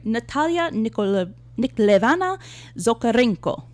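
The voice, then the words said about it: Put-on Russian-style accent. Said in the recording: “I added, like, the accent.”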